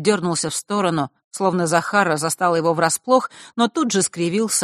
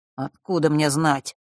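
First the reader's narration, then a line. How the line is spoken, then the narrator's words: Irritated mutter. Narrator (Russian): раздраженно пробормотал он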